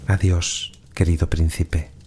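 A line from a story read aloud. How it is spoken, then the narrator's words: Murmur. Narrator (Spanish): murmuró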